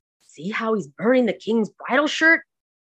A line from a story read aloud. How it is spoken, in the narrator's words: The other servants thereupon began to murmur, saying